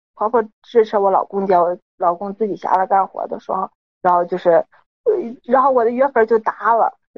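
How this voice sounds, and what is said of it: Speaks with a regional accent. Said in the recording (Chinese): “你有点口音”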